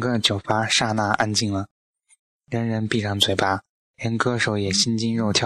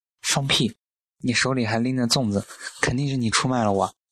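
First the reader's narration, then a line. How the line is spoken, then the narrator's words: Furious. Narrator (Chinese): 胡言暴怒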